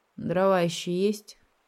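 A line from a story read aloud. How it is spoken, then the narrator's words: Sleepy question. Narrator (Russian): сонно спросил я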